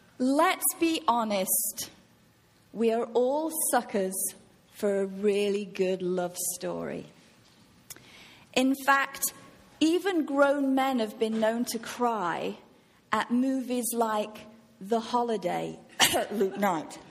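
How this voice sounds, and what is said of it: English accent. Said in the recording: “I speak with an accent ... you sound different ... enjoy the English accent”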